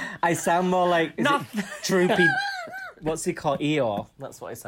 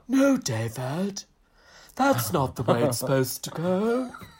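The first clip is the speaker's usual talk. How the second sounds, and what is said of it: Imitates a TV character's accent. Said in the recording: “perfecting the Moira Rose from Schitt's Creek accent”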